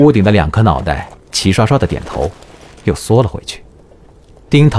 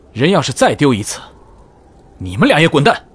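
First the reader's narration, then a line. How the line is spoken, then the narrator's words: Shouted upward. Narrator (Chinese): 萧迟夜抬头冲屋顶上的两个人喊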